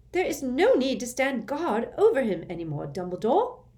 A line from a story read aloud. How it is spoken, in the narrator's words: she shrieked